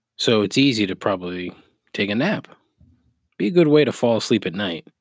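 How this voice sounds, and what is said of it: Calm, soothing radio-style voice. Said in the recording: “I have a very calming radio voice.”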